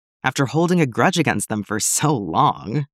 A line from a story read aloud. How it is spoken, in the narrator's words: Sarasi asks with a scoff